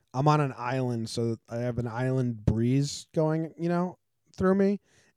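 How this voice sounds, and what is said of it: Tired, low-energy voice. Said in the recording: “slightly morose, slightly like you're running out of steam”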